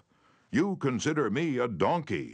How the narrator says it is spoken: he shouted

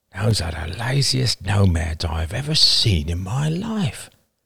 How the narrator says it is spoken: murmured Roman in wonder

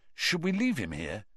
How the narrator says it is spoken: Cedric muttered

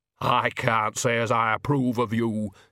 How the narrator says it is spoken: she said stiffly

